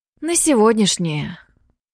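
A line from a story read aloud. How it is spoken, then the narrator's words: Breathed out. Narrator (Russian): выдохнула Аяка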